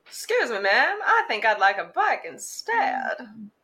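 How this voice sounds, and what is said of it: Transatlantic child accent. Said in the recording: “in her transatlantic child accent.”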